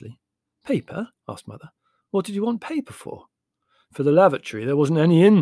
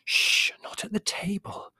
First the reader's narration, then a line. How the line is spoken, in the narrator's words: whispered Mother